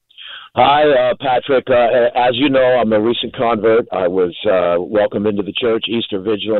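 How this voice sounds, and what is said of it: Great radio voice. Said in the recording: “you have a great radio voice.”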